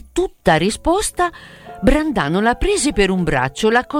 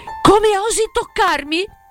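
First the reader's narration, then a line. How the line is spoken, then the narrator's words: Stunned, indignant, stammering. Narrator (Italian): esclamò Selvaggia, stupefatta e sdegnata al punto di balbettare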